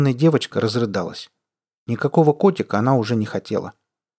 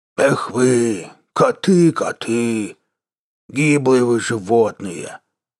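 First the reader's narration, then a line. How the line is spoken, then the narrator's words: Drawn-out drawl. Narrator (Russian): протянул он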